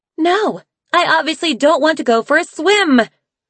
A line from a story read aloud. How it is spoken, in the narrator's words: Snowfall yelled